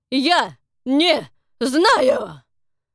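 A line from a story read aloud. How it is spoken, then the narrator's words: Yelled. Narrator (Russian): завопил Фрэнк в ответ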